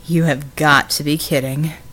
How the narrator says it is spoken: Red snorted

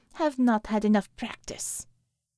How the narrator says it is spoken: she sighed

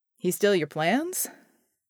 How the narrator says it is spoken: John asked dryly

